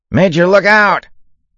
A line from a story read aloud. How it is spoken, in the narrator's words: Zwitty shouted